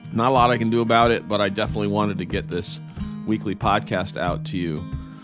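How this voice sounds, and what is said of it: Nasal, deeper voice from a cold. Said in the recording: “sounds like I'm a bit nasally and my voice is a bit deeper than normal... because I'm battling a cold... my voice is a little off”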